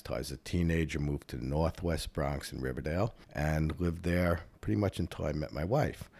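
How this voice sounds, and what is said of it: Bronx New York accent. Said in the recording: “I was born and raised in the Bronx, in case you couldn't tell by the accent”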